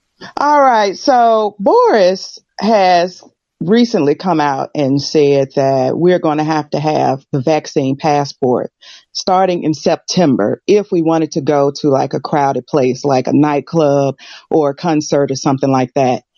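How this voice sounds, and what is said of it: American accent. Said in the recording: “I'm American, but I live in the UK... I haven't lost the accent”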